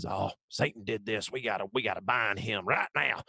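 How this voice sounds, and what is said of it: Put-on Southern preacher accent. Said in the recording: “Southern Church ... you're welcome for that accent”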